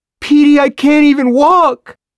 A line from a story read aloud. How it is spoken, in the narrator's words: Tina wails